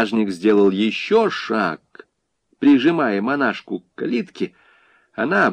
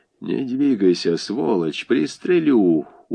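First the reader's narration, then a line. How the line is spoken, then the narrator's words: Loud, tense. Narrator (Russian): уже своим громким и напряженным голосом сказал Борис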